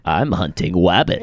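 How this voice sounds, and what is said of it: Cartoon hunter voice impression. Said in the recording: “That's a good impression. ... that was a great impression.”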